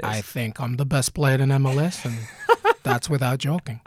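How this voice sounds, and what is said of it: Zlatan Ibrahimovic impression, sounding Russian. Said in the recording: “do it in a Zlatan voice ... it sounded Russian ... I got to work on my Swedish”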